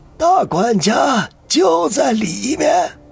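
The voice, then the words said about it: Hoarse, raspy old man's voice. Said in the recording (Chinese): “用那嘶哑的声音说道”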